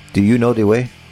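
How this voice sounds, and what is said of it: Put-on accented character voice. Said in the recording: “I don't know what accent that is. I don't know what character that is.”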